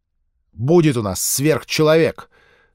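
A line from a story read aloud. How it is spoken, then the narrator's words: Sharp, angry. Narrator (Russian): Резко, зло отозвался Хартли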